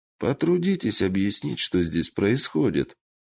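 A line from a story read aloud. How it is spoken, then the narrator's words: Calm, confident. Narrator (Russian): произнес Ясуо спокойно и уверенно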